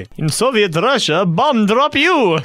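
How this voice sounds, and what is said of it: Put-on Russian accent. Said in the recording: “I can do Russian accent better than Zimbabwe.”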